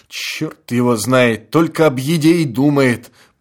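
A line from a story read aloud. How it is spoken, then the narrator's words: Grumbling. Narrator (Russian): проворчал философ Милкин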